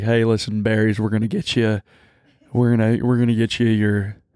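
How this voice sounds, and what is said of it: Deep Southern country accent. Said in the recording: “he has like a deep country, ... Southern ... accent.”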